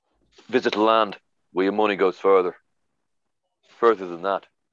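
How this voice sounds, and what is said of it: Put-on Dublin Irish accent. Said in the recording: “Tell us how much everything in the shop is in the accent. ... That's a Dublin accent. ... my impression. ... Humphrey Carr's impression of Bob Geldof.”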